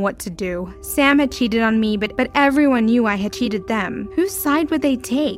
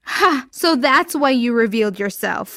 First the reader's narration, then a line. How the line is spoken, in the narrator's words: Hannah laughed